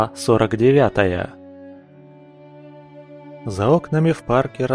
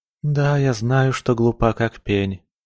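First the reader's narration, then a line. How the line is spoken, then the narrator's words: Girl sighing. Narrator (Russian): вздохнула девушка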